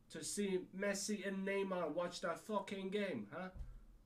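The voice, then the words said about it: Irish accent. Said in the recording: “Did I just turn Irish? ... You gotta love the accent.”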